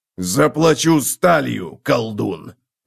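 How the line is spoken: Growled. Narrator (Russian): прорычал Готрек

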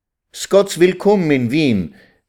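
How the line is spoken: Joyful call. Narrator (German): rief Vetter Simche freudig

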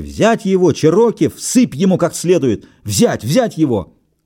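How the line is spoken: Crowd shouting. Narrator (Russian): Из толпы закричали

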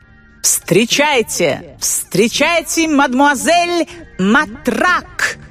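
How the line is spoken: Announcer shouting. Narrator (Russian): Закричал конферансье

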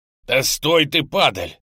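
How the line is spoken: Angry yell. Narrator (Russian): Зло заорал я вслед удирающему мячику

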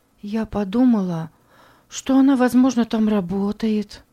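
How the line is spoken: Soft girl's voice. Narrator (Russian): мягко сказала девочка

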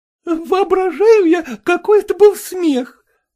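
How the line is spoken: Woman's exclamation. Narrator (Russian): воскликнула Анна Николаевна, худенькая блондинка

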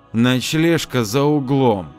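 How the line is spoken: Through gritted teeth. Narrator (Russian): Ада процедила

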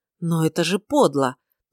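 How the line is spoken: Prince's strained utterance. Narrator (Russian): только и смог выдавить принц

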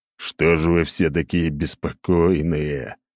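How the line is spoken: Groaning. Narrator (Russian): простонал Зябликов

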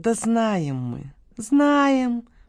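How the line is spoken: Drawn-out drawl. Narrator (Russian): протянула Вика

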